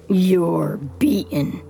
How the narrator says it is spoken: the bullet catcher growls

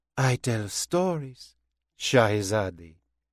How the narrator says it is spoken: she said softly, shifting effortlessly into French

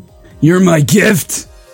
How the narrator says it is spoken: I asked, choking down a moan

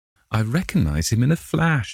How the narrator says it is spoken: exclaimed the Duchess

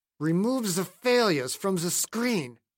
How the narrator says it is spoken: Ruhmkorff said through clenched teeth

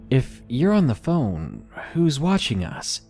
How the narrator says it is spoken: she said in a confused voice

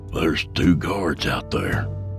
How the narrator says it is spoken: Yancey whispered

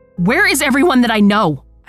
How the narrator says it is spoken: I scream

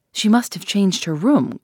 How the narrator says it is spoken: cried Poirot

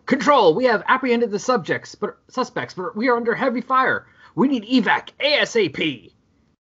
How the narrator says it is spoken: a soldier up close yelling into a radio

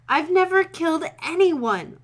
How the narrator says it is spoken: Lorelai gasped

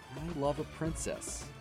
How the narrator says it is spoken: Aladdin said sadly

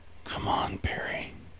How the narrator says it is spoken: Under his breath, lower than anyone else could hear, muttered to himself

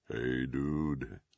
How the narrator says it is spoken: Blood Axe said softly

